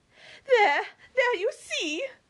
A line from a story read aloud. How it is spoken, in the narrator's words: cried Mary in ecstasy